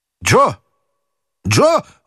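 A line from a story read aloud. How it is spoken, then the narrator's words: Horrified scream. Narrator (Russian): в ужасе закричал доктор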